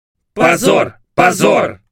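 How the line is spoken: Overlapping crowd shouts. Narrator (Russian): закричали наперебой остальные

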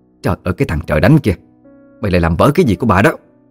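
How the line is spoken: Angry screaming. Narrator (Vietnamese): Mụ Xoan ... miệng la hét lên

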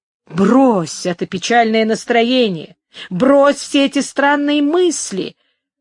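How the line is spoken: Exclaiming. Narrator (Russian): воскликнул Горацио

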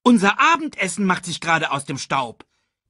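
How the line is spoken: Calling out. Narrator (German): rief Banzai

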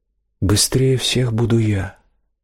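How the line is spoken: Very calm. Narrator (Russian): мэтр Арно очень спокойно произнес

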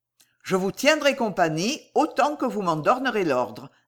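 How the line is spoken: Plain. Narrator (French): dit-il

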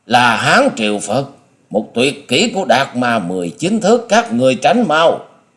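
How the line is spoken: Panicked shriek. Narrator (Vietnamese): điểu thần ma hốt hoảng rú lên

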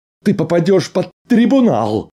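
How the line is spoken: Hysterical shriek. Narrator (Russian): истерично взвизгнул Арнольд

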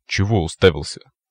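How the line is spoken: Grumbling. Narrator (Russian): проворчал Адидас

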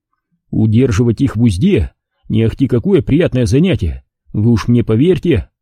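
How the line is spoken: Plain. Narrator (Russian): сказал

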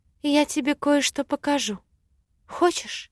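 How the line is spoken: Conspiratorial whisper. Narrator (Russian): прошептала заговорщицки

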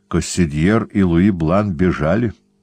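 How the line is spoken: Plain. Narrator (Russian): сказал иезуит

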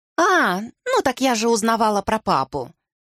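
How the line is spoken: Carefree voice. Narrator (Russian): беззаботным голосом сказала Ливи

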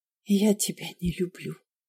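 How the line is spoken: Whisper. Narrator (Russian): сказала я шепотом, чтобы Ярослав не услышал

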